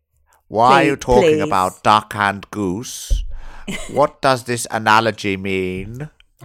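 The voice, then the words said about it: Hammy Hannibal Lecter impression. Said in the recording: “I've just put on a Hannibal Lecter accent. ... hammy.”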